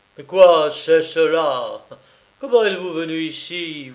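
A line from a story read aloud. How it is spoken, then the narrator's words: Yelling angrily. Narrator (French): vociféra le métaphysicien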